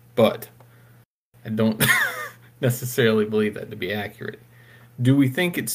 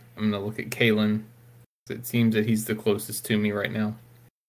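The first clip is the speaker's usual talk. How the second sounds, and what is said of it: Quiet, hushed voice. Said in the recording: “in my best quiet voice”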